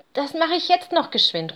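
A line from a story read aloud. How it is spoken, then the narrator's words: Small bear calling. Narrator (German): ruft der kleine Bär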